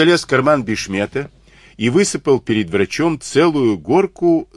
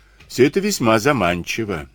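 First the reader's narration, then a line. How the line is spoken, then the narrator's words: Calm reply. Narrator (Russian): спокойно ответил Сивицкий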